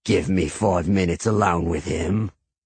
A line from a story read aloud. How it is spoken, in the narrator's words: Cregan said with a growl